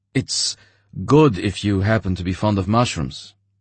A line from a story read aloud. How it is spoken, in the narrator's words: he said in a clear, distinct voice